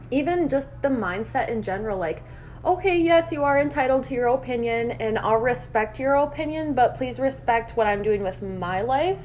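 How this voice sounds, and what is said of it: Minnesota accent, drawn-out O's. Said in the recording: “I like the way you say opinion. ... Is it my Minnesota accent? ... I always draw out my O's.”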